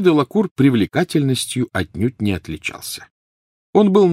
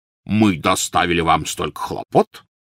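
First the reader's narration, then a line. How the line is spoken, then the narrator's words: Resonant bass. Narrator (Russian): звучным басом произнес он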